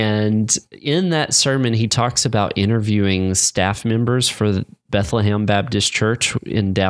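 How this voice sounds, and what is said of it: Usual voice. Nothing is said of it.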